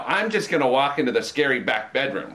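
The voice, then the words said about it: Impression of a white guy. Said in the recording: “I do a really good impression of a white guy ... That's really convincing. That's good. ... Exactly like him.”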